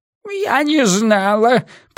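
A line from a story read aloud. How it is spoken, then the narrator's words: Squeaky. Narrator (Russian): пропищал Рафаэль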